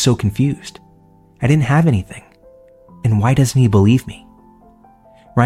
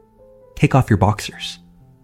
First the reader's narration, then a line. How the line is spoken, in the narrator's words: said calmly and coldly